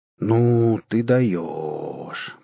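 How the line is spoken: Amazed drawl. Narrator (Russian): протянул пораженный топор

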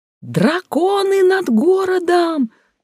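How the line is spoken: Someone yelling. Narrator (Russian): завопил кто-то

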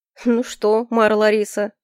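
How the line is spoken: Mocking question. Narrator (Russian): насмешливо спросил Альфред

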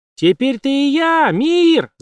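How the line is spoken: Shouted. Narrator (Russian): закричала она

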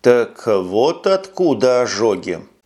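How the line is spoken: Slow. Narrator (Russian): медленно произнес майор

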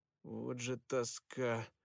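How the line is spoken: Grumbling. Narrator (Russian): проворчал Перси

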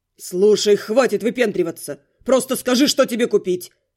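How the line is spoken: Barking, gruff. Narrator (Russian): рявкнул Каст

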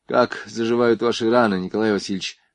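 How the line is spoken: Sighing question, young woman. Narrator (Russian): вздохнув, спросила девушка

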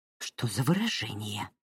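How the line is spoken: Tight-lipped, through teeth, mother. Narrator (Russian): поджав губы, процедила ее мать

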